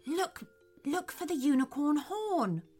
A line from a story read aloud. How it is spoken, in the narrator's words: whispered Theodore